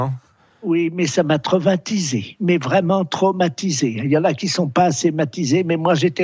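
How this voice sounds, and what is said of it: Usual voice. Nothing is said of it.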